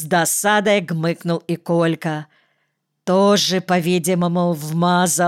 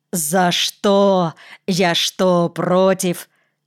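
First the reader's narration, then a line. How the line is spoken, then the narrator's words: Pained groan, deep bass voice. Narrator (Russian): получил по голове, охнул, ойкнул и пробасил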